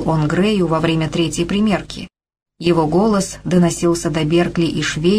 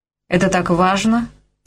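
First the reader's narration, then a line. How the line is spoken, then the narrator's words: Dry inquiry. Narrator (Russian): сухо осведомился Грей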